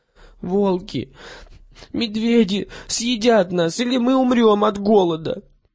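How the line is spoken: Crying through tears. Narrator (Russian): она стала плакать, повторяя сквозь слезы

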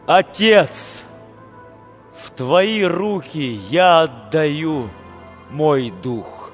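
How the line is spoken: Loud cry. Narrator (Russian): Иса громко крикнул

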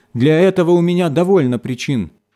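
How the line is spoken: Shouting. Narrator (Russian): закричала она

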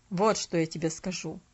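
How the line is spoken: Grumbled. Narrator (Russian): пробурчал он

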